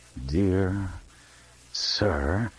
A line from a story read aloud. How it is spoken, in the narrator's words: added slowly and viciously